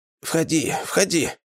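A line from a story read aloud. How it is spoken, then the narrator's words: Barely audible, hoarse. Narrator (Russian): еле слышно, хрипло ответила она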